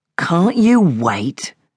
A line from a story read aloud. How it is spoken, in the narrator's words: Albert said irritably